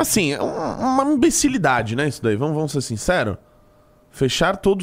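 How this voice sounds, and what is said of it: Usual voice. Nothing is said of it.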